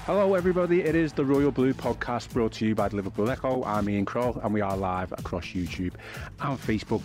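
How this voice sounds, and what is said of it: Congested voice with a head cold. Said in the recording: “I have got a bit of a cold ... It sounded pretty worrying there ... I've just got a bit of a head cold.”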